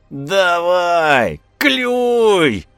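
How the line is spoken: Shrill shout. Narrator (Russian): визгливо крикнул Чиж

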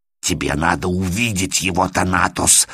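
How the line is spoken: Hoarse. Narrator (Russian): хрипит он

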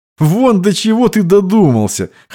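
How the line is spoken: Chuckling. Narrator (Russian): хохотнул Иван

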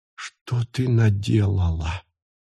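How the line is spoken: Whispered. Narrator (Russian): прошептала она

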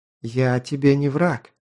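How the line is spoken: Soft, insistent, chesty voice. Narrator (Russian): мягко, но настойчиво сказала она, и вновь грудные нотки

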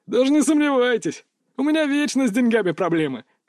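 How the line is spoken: Chuckling. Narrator (Russian): хохотнул он

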